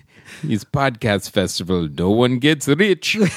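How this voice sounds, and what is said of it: Put-on fake foreign accent. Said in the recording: “Was that your Bulvanian accent? ... Count Chocula. I didn't realize he was from Bulvania. That was amazing.”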